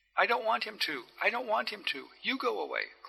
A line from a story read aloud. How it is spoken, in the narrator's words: cried the girl